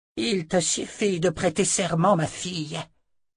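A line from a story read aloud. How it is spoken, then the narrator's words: Grating voice. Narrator (French): dit-elle d'une voix grinçante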